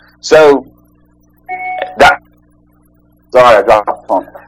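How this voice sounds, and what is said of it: Usual voice. Nothing is said of it.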